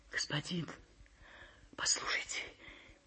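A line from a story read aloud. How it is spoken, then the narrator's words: Muffled whisper. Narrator (Russian): прошептала приглушенным голосом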